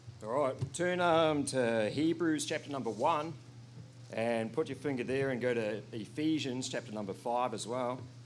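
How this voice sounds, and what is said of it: New Zealand accent. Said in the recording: “I'm from New Zealand. I'm not speaking in tongues, all right? It's just my accent”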